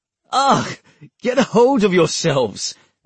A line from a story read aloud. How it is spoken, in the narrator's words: Nigel complained, laughing